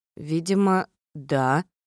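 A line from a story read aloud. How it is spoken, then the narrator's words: Uncertain. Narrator (Russian): неуверенно ответила я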